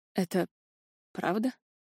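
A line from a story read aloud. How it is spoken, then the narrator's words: Hoarse, shocked. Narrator (Russian): прохрипел Аниард потрясенно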